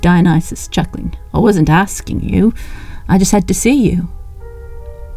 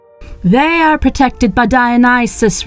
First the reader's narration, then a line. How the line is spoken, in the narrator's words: roared the newcomer